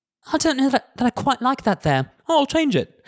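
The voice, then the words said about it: Imitates a quiet British person. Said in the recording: “here's my imitation of, like, one of these couples having an argument ... quiet, lovely British people”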